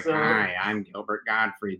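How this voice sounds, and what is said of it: Imitates another person's voice. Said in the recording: “That's actually a good impression of what it sounds like.”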